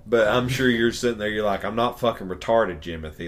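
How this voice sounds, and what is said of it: Southern US accent. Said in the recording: “we are very much in the South by the sounds of our accents.”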